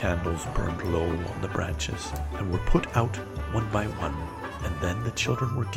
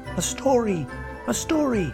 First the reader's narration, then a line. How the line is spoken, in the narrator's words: cried the children